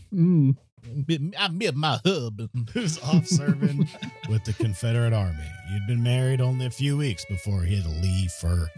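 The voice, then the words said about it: Attempted Vicksburg Southern accent. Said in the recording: “attempt at a Vicksburg accent”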